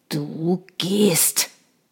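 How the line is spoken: Growled. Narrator (German): knurrte er

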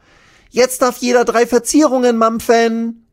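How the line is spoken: Calling out. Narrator (German): ruft sie

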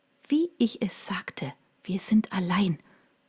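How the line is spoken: Whisper. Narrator (German): flüsterte sie

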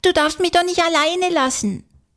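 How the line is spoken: Frightened cry. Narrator (German): ruft Konstantin erschrocken

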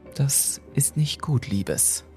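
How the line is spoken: Calm older woman. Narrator (German): sagte die ältere Dame mit ruhiger Stimme

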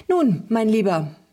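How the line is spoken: Cheerful chatter. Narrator (German): plauderte fröhlich weiter

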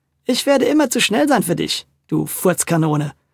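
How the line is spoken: Laughing. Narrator (German): lachte die Kesse Kessi

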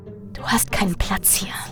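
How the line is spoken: Echoing whisper. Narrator (German): flüsterte eine der Gestalten und formte Worte, die tief in mir Widerhall fanden

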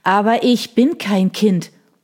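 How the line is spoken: Boy wailing, crying. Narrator (German): jammerte der Junge, brach in Tränen aus

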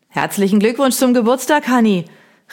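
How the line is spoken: Neighbour calling over fence. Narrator (German): rief mir unser Nachbar Hugo über den Zaun hinweg zu

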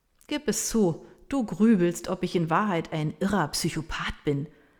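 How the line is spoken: Laughing. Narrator (German): sagt er lachend

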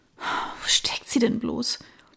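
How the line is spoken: Muttering, puzzled. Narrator (German): murmelte sie kopfschüttelnd

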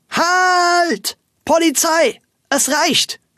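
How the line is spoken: Loud shout. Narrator (German): Dann schrie Frau Wölkchen laut

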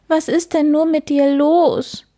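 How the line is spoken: Sobbing. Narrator (German): schluchzte der Hase

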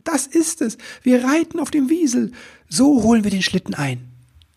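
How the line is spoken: Enthusiastic shout. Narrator (German): rief voller Begeisterung

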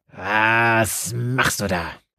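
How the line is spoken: Growl. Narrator (German): knurrte sie dem Pfarrer an

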